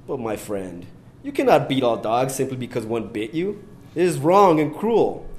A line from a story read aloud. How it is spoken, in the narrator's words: exclaimed indignantly